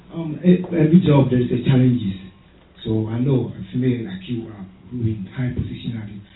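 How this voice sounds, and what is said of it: Speaks English with an accent. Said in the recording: “Forgive me my accent.”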